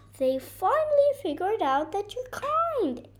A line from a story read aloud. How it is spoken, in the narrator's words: exclaimed Coco